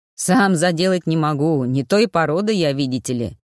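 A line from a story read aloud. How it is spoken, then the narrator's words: Booming chuckle. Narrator (Russian): Кравин гулко хохотнул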